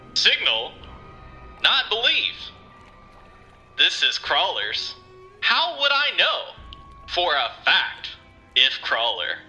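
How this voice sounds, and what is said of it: Obnoxious radio announcer voice, broken tone. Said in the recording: “It sounds like an obnoxious radio announcer voice in a broken tone”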